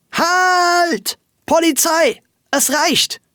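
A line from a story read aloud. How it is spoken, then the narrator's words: Loud scream. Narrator (German): schrie Frau Wölkchen laut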